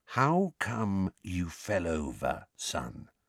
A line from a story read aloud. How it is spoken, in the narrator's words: said Uncle Vernon in an unnaturally quiet voice, the kind of voice he might adopt at the bedside of a very ill person